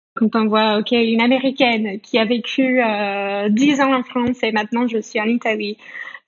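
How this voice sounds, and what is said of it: American accent speaking French. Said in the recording (French): “son accent”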